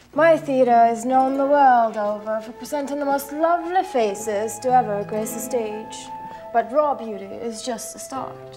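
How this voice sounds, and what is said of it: Very bad overacted fake accent. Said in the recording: “we get the worst fake accent I've ever heard ... really, really overacting”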